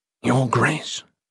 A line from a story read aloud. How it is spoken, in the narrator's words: Aethon whispered, trying not to disturb anyone else